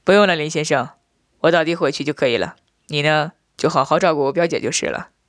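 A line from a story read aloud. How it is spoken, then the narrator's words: Laughing. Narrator (Chinese): 我……笑道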